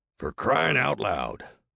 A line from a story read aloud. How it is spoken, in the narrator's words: Boyd muttered